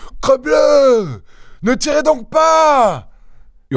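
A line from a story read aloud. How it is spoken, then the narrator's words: Shouting. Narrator (French): hurla Lupin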